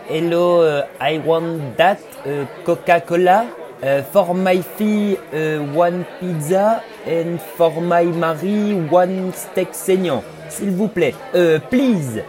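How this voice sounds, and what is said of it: French-accented English. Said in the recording (French): “je les grille direct avec leur accent”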